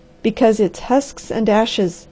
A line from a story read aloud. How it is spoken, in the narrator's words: said the harvester grimly